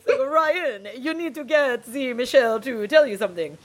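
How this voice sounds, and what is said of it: Put-on French accent. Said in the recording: “You're doing so many voices tonight. ... Maybe he has a fresh accent. ... He is French.”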